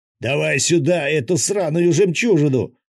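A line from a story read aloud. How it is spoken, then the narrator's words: Very loud yell. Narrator (Russian): заорал так, что я чуть не подпрыгнул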